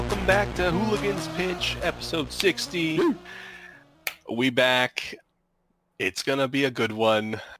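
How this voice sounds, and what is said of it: Voice sounds sick, strained. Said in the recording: “hear it in my voice. I'm getting over a little something, so we'll see how long my voice lasts.”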